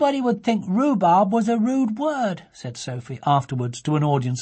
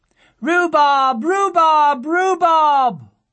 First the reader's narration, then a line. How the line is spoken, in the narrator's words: loudly she cried